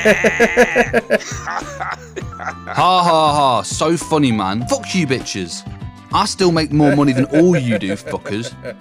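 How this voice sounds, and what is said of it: British accent. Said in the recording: “you came back as British ... Girls love this accent. They find it sexy ... If you had this accent”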